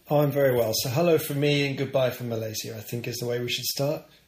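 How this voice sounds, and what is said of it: English accent. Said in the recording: “One's English accent is a little bit stronger than the others.”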